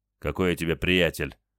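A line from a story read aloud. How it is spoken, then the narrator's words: Gruff mutter. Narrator (Russian): буркнул патрульный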